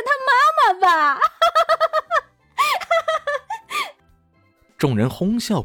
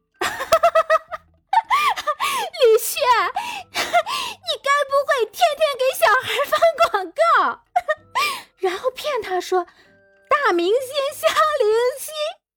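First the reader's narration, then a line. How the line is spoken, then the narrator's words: Amused, just stopped laughing. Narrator (Chinese): 吴佩荣笑得眼泪四溅，她好不容易才抹去眼角的泪珠，止住笑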